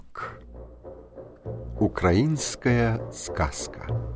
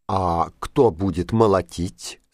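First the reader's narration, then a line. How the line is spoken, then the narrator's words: Plain. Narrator (Russian): спросил петушок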